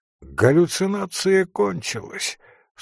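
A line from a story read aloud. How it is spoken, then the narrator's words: Said, then laughing. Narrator (Russian): сказал Коврин и засмеялся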